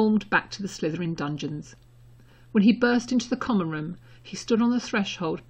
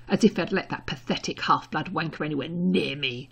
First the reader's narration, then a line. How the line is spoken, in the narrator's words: snarling